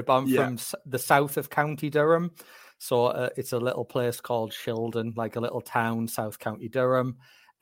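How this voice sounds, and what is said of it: Northeast English accent. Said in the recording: “from your accent, I'm guessing you're from the Northeast”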